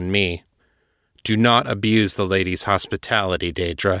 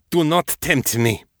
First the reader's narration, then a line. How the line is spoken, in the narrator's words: she snapped